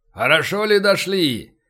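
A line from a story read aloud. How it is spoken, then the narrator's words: Burly man shouting through megaphone. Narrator (Russian): крикнул в жестяной рупор крепкий мужик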